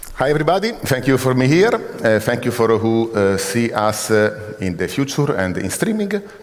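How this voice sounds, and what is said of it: Strong foreign accent in English. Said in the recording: “The accent is strong”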